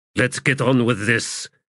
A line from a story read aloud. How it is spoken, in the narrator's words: Callum growled